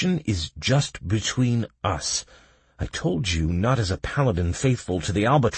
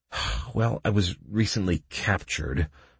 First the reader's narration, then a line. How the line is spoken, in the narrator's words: I sighed